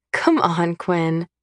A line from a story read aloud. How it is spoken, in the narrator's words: I laugh